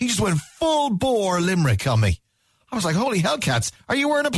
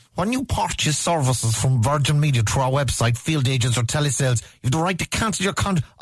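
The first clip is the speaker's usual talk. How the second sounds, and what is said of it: Weak imitation of Limerick accent. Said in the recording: “I'm not even doing a good Limerick impression.”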